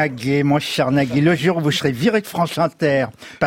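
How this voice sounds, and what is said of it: Usual voice. Nothing is said of it.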